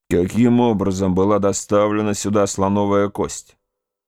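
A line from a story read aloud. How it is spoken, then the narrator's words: Irritated grumble. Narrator (Russian): пробурчал дядя, видимо, очень раздраженный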